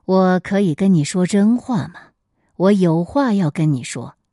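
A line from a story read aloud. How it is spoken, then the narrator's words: Heavy sigh. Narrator (Chinese): 韩信 仰天长叹说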